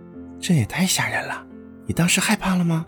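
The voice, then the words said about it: Soft whispered speech. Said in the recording (Chinese): “小声耳语”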